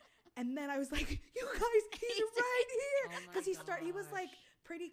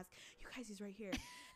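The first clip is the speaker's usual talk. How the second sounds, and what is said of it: Whispering. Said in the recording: “I'm also whispering”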